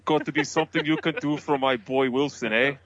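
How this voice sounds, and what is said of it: Poor put-on Canadian-Russian accent. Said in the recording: “That was my Canadian-Russian accent you didn't catch. ... It was horrible.”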